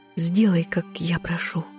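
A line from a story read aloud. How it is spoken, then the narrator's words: Soft whisper. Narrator (Russian): тихо прошептала Азазелю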